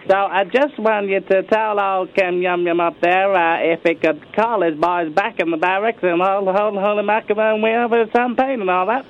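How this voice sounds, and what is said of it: Put-on accent. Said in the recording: “Is it about problem with the accent”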